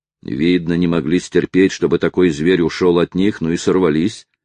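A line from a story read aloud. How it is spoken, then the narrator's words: Plain. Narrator (Russian): ответил Натти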